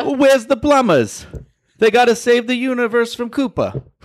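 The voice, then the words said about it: Mock New Jersey accent, Super Mario style. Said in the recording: “I learned all I did with that accent from the Super Mario Brothers movie, 1993.”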